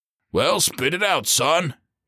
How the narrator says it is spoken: he barked

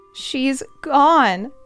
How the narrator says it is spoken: Rosie sobs

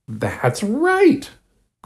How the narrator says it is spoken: cried Henry

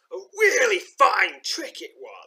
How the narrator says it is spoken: snarls the innkeeper

